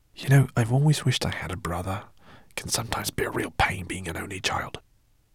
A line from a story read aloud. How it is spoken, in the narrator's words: Guinevere leaned over to Ben and whispered